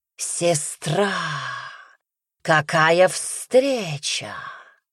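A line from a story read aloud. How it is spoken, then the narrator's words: Loud sepulchral hiss. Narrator (Russian): Шипение Ингаско разнеслось по залу могильной вьюгой, заглушая шум продолжающейся битвы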